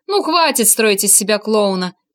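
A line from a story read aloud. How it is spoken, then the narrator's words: Disapproving remark. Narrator (Russian): прокомментировал Этьен, который, хоть и рад был любому поводу похохотать, не терпел профанации в данной области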